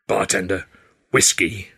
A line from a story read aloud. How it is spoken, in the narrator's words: I growled